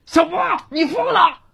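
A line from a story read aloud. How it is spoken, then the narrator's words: Stunned, blurted shout. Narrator (Chinese): 唐云亮傻了，脱口喊道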